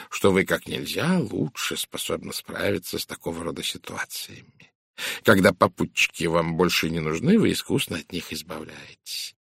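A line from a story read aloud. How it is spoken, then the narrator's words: Polite purr. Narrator (Russian): учтиво промурлыкал Пуаро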